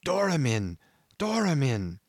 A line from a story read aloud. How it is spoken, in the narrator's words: He had just breath enough to gasp out